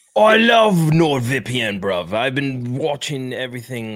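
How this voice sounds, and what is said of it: Put-on British accent. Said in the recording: “It changed my accent as soon as I clicked. ... I'm watching from London. I am now British.”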